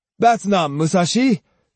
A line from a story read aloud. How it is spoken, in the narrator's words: Jotaro cried disdainfully